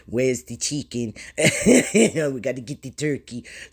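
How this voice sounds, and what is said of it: Put-on German accent. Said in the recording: “German accent”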